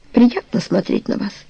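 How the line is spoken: Light laugh. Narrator (Russian): слегка засмеялся

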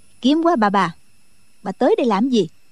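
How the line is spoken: Cold. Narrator (Vietnamese): Đinh Mẫn Quân lạnh lùng nói

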